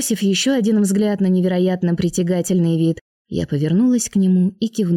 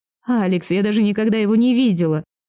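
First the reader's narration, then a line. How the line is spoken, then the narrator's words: Laughing. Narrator (Russian): рассмеялась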